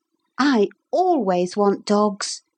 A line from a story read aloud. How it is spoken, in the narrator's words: said Philip warmly